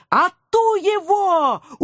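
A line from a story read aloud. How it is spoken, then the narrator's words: Ecstatic encouraging yelling. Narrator (Russian): упоенно вопила я, подбадривая агента 013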